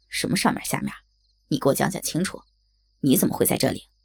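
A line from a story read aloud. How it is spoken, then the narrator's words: Angry. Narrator (Chinese): 小光对这个小桃红没有好感，怒道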